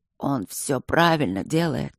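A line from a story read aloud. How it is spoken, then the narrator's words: Barely audible wheeze. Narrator (Russian): просипел едва слышно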